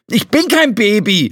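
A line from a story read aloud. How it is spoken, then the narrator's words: Angry retort. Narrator (German): erwiderte Flo wütend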